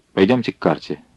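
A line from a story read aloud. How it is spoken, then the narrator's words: Quiet. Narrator (Russian): негромко произнес Гитлер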